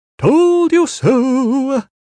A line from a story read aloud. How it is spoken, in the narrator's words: In a mad falsetto, he said